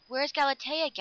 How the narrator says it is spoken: gasped Dan

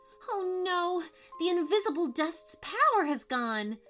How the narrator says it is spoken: cried Violet

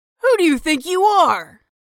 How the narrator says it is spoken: Snyder was yelling

